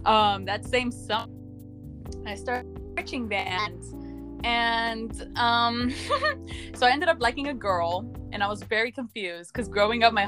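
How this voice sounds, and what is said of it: Nervous, out-of-breath speech. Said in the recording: “getting out of breath. ... I'm nervous.”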